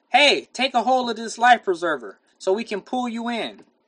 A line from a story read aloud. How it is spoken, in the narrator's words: A family in their boat called out to Bill